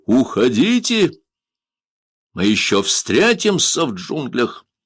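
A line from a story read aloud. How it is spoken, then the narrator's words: Thunderous shout. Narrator (Russian): громовым голосом крикнул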